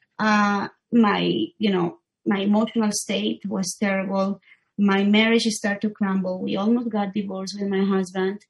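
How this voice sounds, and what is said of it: Non-native English accent. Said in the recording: “I'm sorry, my accent.”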